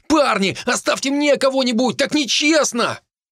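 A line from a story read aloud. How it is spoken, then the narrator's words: Yelling. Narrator (Russian): Хенниган орал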